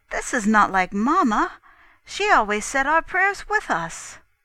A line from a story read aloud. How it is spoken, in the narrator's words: I was equally astonished and exclaimed